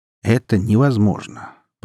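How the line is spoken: Calm. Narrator (Russian): повторил он спокойным голосом

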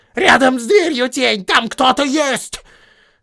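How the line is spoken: Goblin yelling. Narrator (Russian): один из гоблинов заорал

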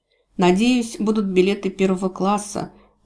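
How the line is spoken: Sighing. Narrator (Russian): вздохнула леди Джейвидж

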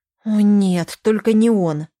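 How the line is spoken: Displeased groan. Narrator (Russian): недовольно простонала она вслух

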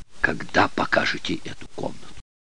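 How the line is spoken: Whisper into ear. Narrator (Russian): прошептала мне на ухо

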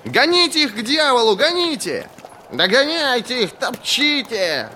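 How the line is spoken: Roaring laughter. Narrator (Russian): хохотал принц Владислав

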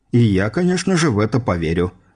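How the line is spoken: Skeptical snort. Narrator (Russian): хмыкнув Горский

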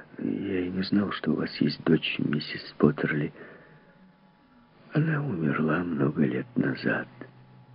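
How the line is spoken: Mumbled. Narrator (Russian): Он пробормотал

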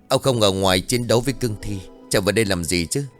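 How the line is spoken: Angry scolding. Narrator (Vietnamese): Cao Khân tức giận mắng

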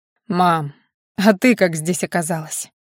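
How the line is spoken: Tired question. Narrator (Russian): Устало спрашивает он

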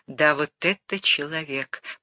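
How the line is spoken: Whispered. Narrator (Russian): прошептал он вслед за капитаном

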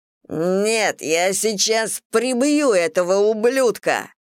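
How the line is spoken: Furious growl. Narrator (Russian): в ярости рычал Стив

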